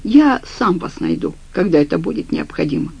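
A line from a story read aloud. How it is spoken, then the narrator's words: Dry reply. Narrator (Russian): сухо ответил он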